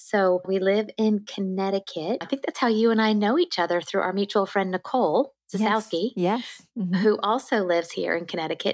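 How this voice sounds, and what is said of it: Southern American accent. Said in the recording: “I hear a Southern accent here.”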